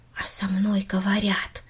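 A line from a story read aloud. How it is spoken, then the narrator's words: Quiet repetition. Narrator (Russian): тихо повторила Минори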